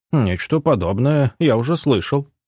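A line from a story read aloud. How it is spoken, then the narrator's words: Wry snort. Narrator (Russian): хмыкнул маг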